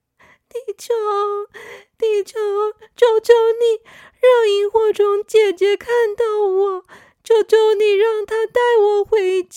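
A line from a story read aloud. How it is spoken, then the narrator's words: Anxious, tearful plea. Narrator (Chinese): 小星星急得哭了，他对着地球许愿说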